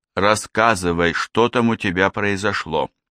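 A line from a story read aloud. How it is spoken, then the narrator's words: Quiet. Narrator (Russian): сказала она тихо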